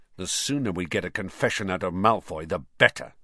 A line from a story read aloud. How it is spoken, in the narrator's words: snarled Ron